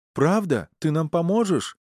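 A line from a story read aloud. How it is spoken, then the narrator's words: Joyful chatterbox yelling. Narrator (Russian): радостно завопил болтун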